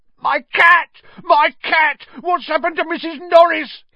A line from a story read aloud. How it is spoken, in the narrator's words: he shrieked